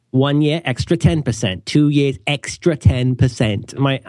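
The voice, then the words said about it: Vague put-on European accent. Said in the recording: “my inchoate European accent ... Is that an Australian subcontinent accent?”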